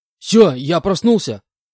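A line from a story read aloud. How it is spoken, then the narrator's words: Sudden shout. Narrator (Russian): выкрикнул я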